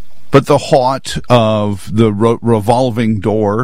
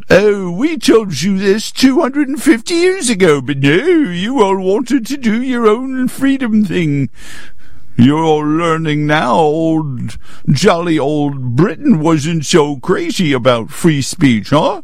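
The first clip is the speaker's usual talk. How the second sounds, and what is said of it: Bad put-on British accent. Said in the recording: “all of a sudden became Scooby-Doo in the middle of my bad British accent”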